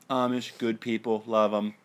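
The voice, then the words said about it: Alec Baldwin's Donald Trump impression. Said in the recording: “doing an impersonation of Alec Baldwin as Donald Trump”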